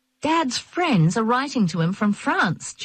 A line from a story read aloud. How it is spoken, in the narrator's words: Jean said excitedly